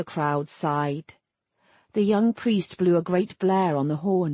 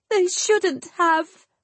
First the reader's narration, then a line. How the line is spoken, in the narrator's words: Adarin sobbed